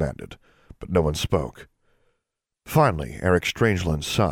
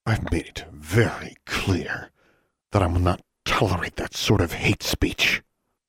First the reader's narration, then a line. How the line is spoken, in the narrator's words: Shurtleff said through clenched teeth